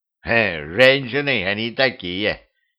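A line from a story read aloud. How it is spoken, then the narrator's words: Old man's snort. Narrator (Russian): дед хмыкнул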